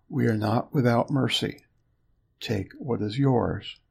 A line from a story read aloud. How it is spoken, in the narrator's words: whispering